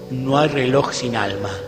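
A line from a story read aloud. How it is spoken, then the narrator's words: Murmur. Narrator (Spanish): murmuró Gabriel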